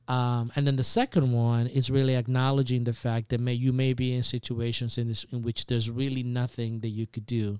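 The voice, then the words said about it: Speaks with a noticeable accent. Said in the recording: “I don't appreciate making fun of my accent ... I love your accent.”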